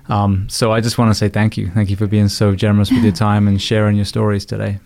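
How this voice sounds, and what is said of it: British accent. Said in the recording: “someone with a British accent”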